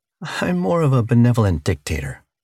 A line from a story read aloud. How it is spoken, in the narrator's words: she said with a chuckle